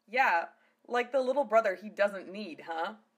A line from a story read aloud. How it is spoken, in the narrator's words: Lena chuckled